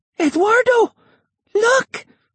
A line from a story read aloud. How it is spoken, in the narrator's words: she cried